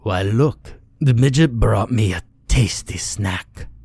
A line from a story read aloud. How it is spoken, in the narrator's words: he said in a gravelly voice thick with a German accent